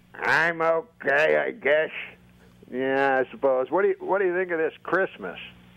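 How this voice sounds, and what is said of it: Puppet character's old man voice. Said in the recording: “old man voice ... the old Holocaust denier's voice? Give me that voice.”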